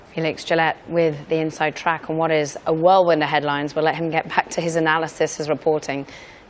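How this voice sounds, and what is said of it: Hoarse voice. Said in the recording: “my rather hoarse voice”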